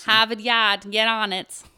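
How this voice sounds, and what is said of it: Attempted Boston accent, sounding Jersey. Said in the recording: “Give me a Boston accent, though. ... I can't do a Boston accent. ... That's more Jersey. I'm going to have to work on my Boston accent”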